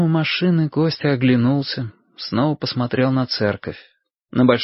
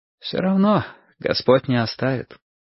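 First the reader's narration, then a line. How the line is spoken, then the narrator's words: Priest's sigh. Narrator (Russian): вздохнул священник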